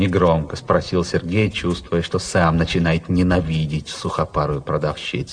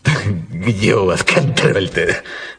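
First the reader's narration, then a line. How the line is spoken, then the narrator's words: Laughing. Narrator (Russian): засмеялся Сергей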